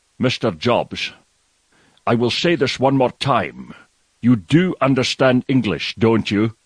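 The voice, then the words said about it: Sean Connery impression. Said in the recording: “I'm going to try and read it in his accent ... his voice”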